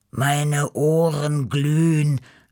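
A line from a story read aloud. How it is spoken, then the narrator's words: Groan. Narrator (German): stöhnte Beppo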